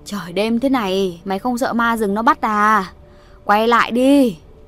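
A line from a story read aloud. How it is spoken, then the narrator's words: Straining shout after someone. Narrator (Vietnamese): Bà Chắn cố gào nói theo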